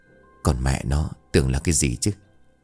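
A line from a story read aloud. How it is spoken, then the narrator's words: Startled then calm muttering. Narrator (Vietnamese): Thắng giật mình nhưng mau chóng bình tĩnh miệng lẩm bẩm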